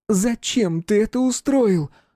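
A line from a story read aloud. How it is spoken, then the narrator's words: Echoing shout. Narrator (Russian): закричала она, и ее голос отзывался эхом в низине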